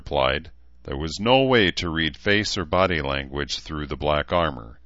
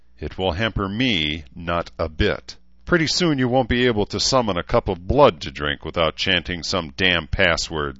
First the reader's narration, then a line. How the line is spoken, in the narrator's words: Celine snarled